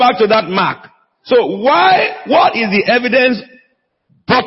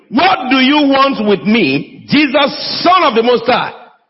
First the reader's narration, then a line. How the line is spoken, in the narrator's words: the demon shouted at the top of his voice